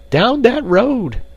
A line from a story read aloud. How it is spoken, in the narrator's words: cried the frightened woman